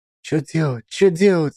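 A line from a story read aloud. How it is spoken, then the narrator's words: Children whispering. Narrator (Russian): шептались ребятишки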